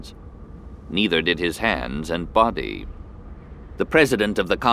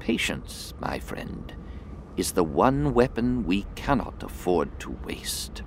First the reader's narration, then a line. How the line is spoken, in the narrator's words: she whispered softly